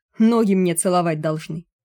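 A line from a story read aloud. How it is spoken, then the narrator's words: Smug booming. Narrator (Russian): самодовольно прогудел Януш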